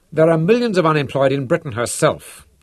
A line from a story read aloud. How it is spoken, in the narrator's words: Habanger pointed out irritably